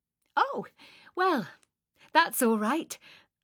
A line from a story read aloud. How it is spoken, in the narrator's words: I said cheerfully